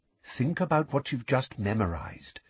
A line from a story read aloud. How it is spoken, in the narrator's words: said Lupin quietly